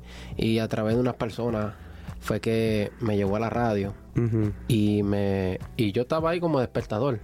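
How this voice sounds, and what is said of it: Hoarse, deep announcer-like voice. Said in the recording (Spanish): “yo siempre he tenido la voz como, como ronca... tú tienes voz de locutor... yo tengo esa voz como de locutor”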